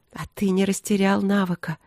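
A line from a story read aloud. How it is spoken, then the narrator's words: Tender whisper. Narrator (Russian): прошептала я разнеженно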